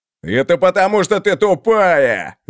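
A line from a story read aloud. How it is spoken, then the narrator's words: Loud yell, big oaf. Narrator (Russian): завопил большой простак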